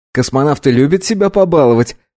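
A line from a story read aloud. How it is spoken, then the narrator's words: Laughing. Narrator (Russian): рассмеялся Вагнер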